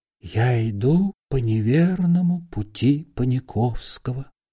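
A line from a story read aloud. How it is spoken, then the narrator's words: Whisper. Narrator (Russian): прошептал Остап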